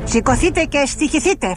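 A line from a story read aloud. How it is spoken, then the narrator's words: Furious shout. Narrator (Greek): φώναξε έξαλλος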